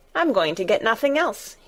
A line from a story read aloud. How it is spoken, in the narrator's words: he answered